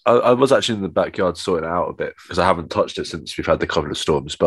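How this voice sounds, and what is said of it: Voice slightly congested from cold. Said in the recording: “I've got a bit of a cold”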